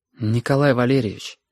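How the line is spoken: Plain. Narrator (Russian): сказала Сашка

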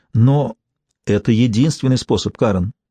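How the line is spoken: Gentle, soft. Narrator (Russian): мягко сказал муж

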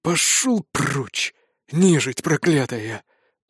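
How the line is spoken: Weary exhaled words. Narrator (Russian): устало выдохнул он

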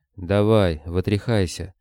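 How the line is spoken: Grumbled. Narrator (Russian): буркнул он

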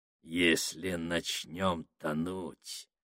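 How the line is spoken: Ominous voice. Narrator (Russian): зловещим голосом сказал Сакс

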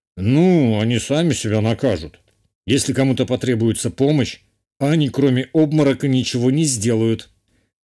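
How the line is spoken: Wry snort. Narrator (Russian): хмыкнул герцог

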